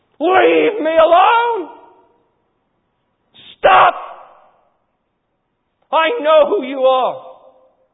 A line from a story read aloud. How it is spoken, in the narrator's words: he begins to scream